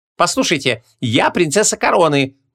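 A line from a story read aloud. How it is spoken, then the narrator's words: Assertive exclamation. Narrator (Russian): напористо воскликнула Гвиньола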